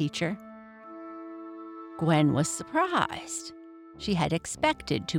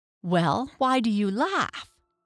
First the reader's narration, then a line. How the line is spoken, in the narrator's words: asked, turning angrily